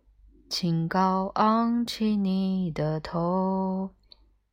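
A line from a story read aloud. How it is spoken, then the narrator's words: Low nasal mournful singing. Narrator (Chinese): 电脑带着鼻音低声哀唱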